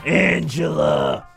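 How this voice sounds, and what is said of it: Imitates another person's voice. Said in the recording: “my Tony Danza impression”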